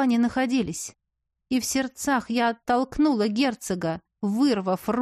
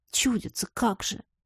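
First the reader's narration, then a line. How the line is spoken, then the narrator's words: Grumbling. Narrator (Russian): проворчала я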